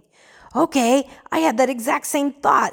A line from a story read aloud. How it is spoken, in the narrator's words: exclaimed Ben